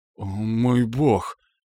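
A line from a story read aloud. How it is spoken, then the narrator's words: Breathless exhale. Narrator (Russian): выдохнул Уиллет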